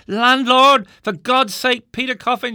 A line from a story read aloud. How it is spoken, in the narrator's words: shouted I